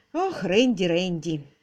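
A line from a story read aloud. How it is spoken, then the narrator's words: Sigh. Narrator (Russian): вздохнула мисс Силвер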